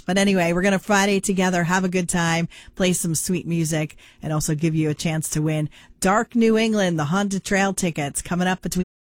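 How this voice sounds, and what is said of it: Slightly hoarse voice. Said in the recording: “Laryngitis got the best of me ... Just still a little hoarse.”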